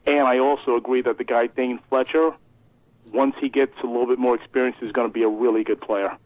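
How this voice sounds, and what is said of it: Thick regional accent. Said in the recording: “Felt like I was listening to the fan right there. You in with the accent. ... With the accent”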